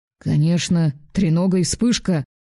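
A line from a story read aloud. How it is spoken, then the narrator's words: Irritated. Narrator (Russian): Раздраженно промолвил Таннер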